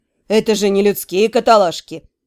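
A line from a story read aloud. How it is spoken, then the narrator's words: Offended snort. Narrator (Russian): оскорбленно фыркнул темный эльф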